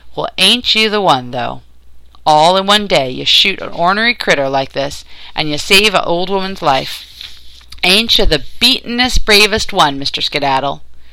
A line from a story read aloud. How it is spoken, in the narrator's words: she laughed and said